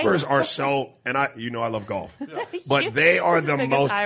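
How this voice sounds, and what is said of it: Usual voice. Nothing is said of it.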